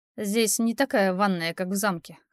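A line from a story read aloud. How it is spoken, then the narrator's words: Snorting. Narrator (Russian): хмыкнул он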